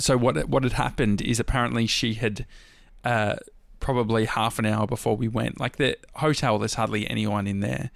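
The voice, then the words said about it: Strained, fading voice. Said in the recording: “I'm losing my voice again.”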